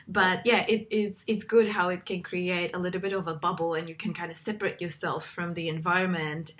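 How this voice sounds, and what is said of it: Slightly congested, sick-sounding voice. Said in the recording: “i have a little bit of a cold”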